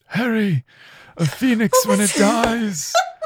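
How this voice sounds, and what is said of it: Tired British Dumbledore impression. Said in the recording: “I love that constantly sounding so tired... That impression was spot on... anytime I make a British accent that I do it wrong... The British accent is meh.”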